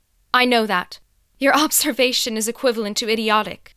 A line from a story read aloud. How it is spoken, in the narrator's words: retorted sharply with a mocking laugh, back to her own confident self and seething with a tongue as potent as poison